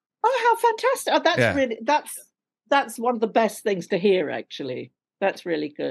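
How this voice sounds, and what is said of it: RP London English accent. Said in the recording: “Now this is my real accent. It's, you know, RP London, darling.”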